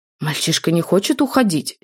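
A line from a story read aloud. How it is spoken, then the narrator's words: Angry reply. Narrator (Russian): сердито ответил Заальфельд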